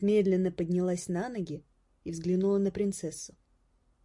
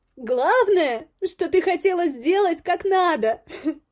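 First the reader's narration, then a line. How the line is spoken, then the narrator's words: Shouted. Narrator (Russian): прокричала Горошенко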